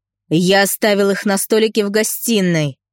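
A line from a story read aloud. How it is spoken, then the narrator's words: Man growling. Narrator (Russian): зарычал мужик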